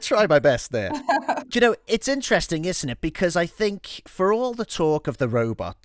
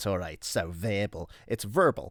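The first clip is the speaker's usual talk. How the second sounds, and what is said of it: Put-on American accent. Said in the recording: “That was a good American accent.”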